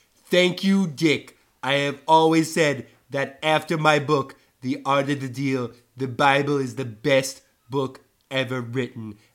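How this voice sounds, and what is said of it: Imitates another person's voice. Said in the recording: “Another Trump impersonator with another monologue. I guess Trump impersonations are pretty popular these days.”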